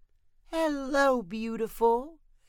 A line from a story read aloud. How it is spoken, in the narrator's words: Junie said sweetly to the deer